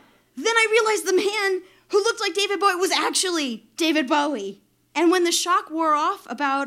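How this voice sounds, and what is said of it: Usual voice. Nothing is said of it.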